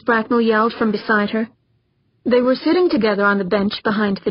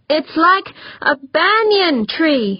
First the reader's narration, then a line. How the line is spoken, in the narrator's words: shouted back